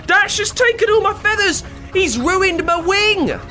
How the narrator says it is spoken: He screams

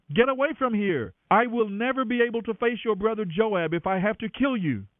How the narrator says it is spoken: Abner shouted to him

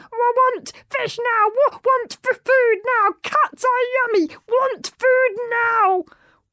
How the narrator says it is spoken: The dragon struggled wildly, shouting

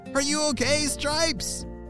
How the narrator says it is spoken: shouted Emma

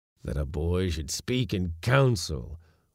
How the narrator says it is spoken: old was mumbling

